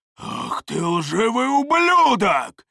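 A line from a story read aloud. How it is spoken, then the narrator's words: Roaring. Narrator (Russian): взревел второй близнец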